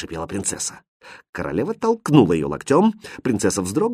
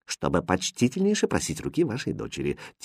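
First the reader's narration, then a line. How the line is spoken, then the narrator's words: Quiet jester. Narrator (Russian): тихо ответил шут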